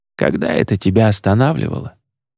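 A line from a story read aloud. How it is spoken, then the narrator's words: Convulsive sigh. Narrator (Russian): Едриэль судорожно вздохнул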